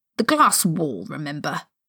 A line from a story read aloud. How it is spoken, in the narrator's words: Severus said irritably